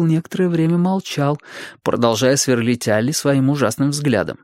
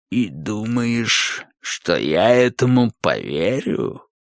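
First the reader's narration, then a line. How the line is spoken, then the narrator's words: Creaky voice. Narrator (Russian): Наконец проскрипел он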